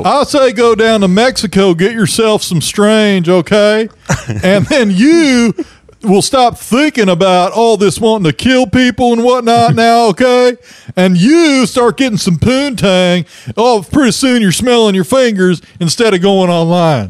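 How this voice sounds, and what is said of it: Imitates another person's voice. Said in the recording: “doing that voice. ... I was having a hard time with Dr. Phil there.”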